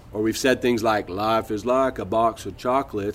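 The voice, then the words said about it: Forrest Gump impression. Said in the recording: “I hope you really like my Forrest Gump impression”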